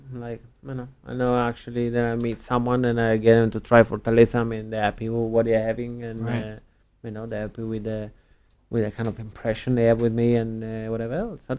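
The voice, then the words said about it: Speaks with a charming foreign accent. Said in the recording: “it's the accent, right? That's what wins you over. Some people, maybe they just find it so charming.”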